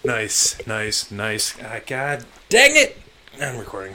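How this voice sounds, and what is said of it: Yelling loudly into the mic. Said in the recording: “Sorry for yelling into the mic.”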